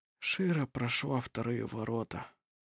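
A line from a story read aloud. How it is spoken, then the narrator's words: Quiet. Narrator (Russian): тихо сказал он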